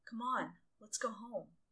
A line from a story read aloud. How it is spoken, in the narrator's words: Taiho pleaded